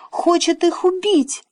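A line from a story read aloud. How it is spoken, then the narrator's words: Squeaky. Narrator (Russian): пискнул Пин-Понг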